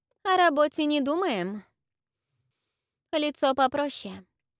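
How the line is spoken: Brisk, cheerful stylist. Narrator (Russian): бодро сказала стилист

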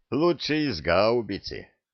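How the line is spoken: Snort. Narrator (Russian): хмыкнул Люк

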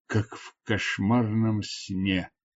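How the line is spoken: Muttering. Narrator (Russian): пробормотал Джатор

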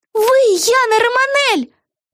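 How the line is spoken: Shouting. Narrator (Russian): заорала Вега

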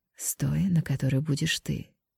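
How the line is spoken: Whisper. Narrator (Russian): прошептал Ян

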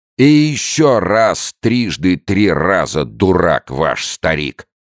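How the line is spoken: Drunken yelling. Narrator (Russian): орал пьяным голосом Аугустино

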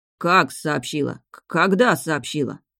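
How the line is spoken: Muttering. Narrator (Russian): бормотали смотрители

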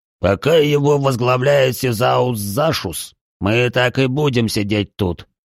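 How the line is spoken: Growled. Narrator (Russian): прорычал Тигран

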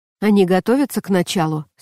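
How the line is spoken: Plain question. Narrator (Russian): спросил он

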